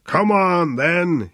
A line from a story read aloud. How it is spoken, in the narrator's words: he shouted